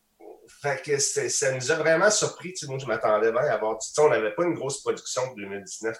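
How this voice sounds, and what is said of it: Québécois French accent. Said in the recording (French): “on est des parfaits étrangers avec un accent québécois”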